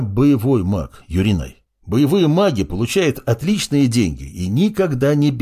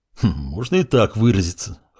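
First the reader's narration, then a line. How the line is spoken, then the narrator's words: Amused snort. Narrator (Russian): хмыкнул Маркус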